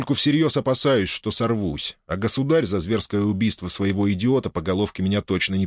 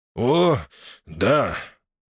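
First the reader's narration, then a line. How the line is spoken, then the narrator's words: Approving snort. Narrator (Russian): хмыкнул, явственно плеснув эмоции одобрения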